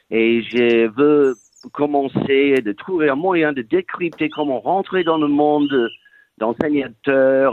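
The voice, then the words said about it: Authentic regional French accent. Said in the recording (French): “j'adore ton accent ... Authentique ... Bourguignon”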